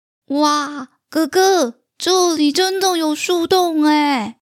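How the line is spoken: Little sister shouting. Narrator (Chinese): 妹妹 大叫

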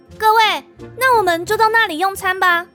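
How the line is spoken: Cheerful call. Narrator (Chinese): 元宇笑着对王城侍卫们喊

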